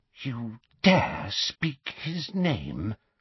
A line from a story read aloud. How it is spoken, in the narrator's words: whispered Bellatrix